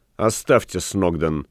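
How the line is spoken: Cold command. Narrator (Russian): холодно приказал Ван Конат

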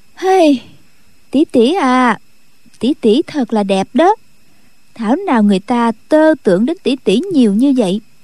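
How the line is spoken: Sighing. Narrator (Vietnamese): Khúc Phi Yên thở dài nói

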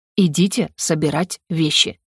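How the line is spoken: Through gritted teeth. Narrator (Russian): процедил декан

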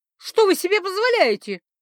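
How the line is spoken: Shrieking. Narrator (Russian): взвизгнув

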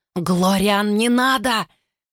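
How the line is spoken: Hoarse rasp. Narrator (Russian): прохрипела Флорел

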